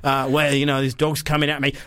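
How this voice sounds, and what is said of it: Put-on Australian accent. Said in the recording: “it's fine to do the Australian accent”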